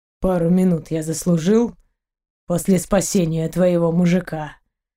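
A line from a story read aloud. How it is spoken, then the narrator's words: Rougher voice. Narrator (Russian): уже более грубым голосом переспросил пират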